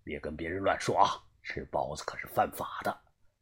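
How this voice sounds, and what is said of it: Quiet, hushed voice. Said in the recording (Chinese): “他小声的对我耳边说道”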